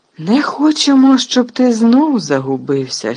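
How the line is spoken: Hearty laugh. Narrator (Ukrainian): щиро засміявся Фадж

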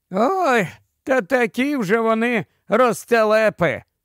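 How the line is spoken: Sighing. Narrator (Ukrainian): зітхнув Чаклун

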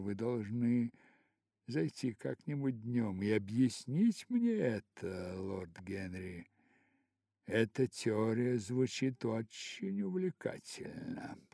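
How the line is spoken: Murmured. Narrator (Russian): пробормотала она

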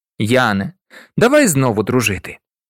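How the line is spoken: Laughing. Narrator (Ukrainian): раптом розсміявся і сказав

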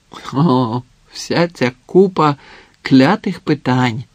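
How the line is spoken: Groaning, trembling voice. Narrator (Ukrainian): простогнала Алсана, голос якої враз утратив запал і затремтів

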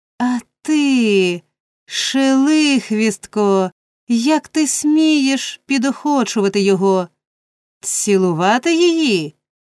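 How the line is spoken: Indignant exclamation. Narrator (Ukrainian): обурено вигукнув

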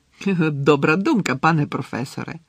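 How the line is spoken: Fawning exclamation. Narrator (Ukrainian): по-підлабузницькому вигукнув Ерні

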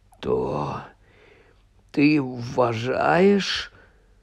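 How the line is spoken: Hoarse voice. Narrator (Ukrainian): хриплим голосом мовив Гаррі

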